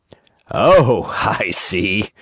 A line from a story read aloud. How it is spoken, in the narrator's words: he said, trying bravely to laugh